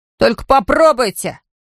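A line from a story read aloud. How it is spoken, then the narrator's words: Boy shouting, children's chorus. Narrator (Russian): крикнул один из ребят, и его поддержал дружный хор детских голосов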